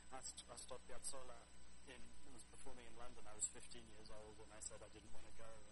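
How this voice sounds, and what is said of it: London English accent. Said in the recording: “We lived in London. You can tell from my accent.”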